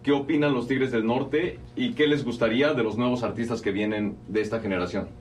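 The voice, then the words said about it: Radio announcer-style voice. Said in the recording (Spanish): “esto sí tiene voz de locutor ... pues sí habla como... ... Este sí habla como el Jaguar Martínez”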